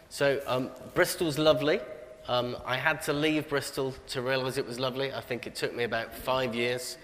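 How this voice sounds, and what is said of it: Slight Bristol accent. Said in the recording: “We can tell a little bit, but people might be trying to guess the accent. You're from Bristol.”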